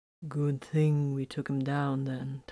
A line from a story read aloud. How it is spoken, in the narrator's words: Titus murmured